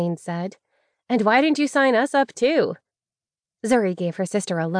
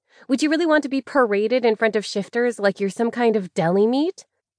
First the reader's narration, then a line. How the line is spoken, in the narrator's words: Isaline moaned, licking a chip and chewing furiously